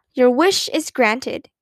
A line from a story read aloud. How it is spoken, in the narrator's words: cried Aunt Beatrice, smiling